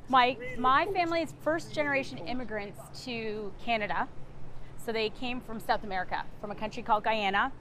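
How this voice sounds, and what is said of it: Canadian accent. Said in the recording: “I'm Canadian. So you'll probably hear that in my accent with the out and about”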